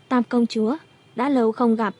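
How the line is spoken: Softly. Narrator (Vietnamese): Hỏa Chư Vũ khẽ nói

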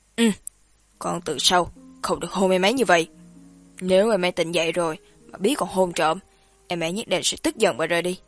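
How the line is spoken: Stern, displeased rebuke. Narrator (Vietnamese): Lương Đông đen mặt, nghiêm giọng chấn chỉnh Samson

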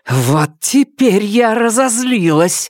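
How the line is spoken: Hoarse shout. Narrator (Russian): хрипло крикнула Нелит

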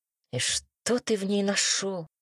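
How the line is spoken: Puzzled mutter. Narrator (Russian): недоуменно пробормотал Робин

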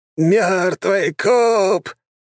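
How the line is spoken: Shrieked excitedly. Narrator (Russian): завизжал он

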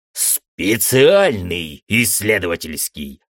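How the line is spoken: Angry barking. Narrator (Russian): зло рявкнул Тамс

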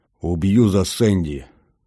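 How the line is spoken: Man growling into ear. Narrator (Russian): рычал мужчина мне в ухо

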